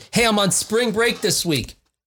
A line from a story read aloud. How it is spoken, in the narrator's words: her daughter pointed out loudly